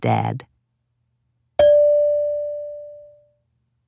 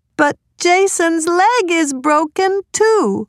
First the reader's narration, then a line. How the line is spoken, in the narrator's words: cried Laura